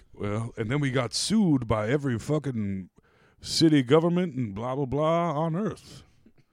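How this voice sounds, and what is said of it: Imitates another person's voice. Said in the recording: “I talk like I'm doing an impression of fucking Morgan Freeman and Driving Miss Daisy”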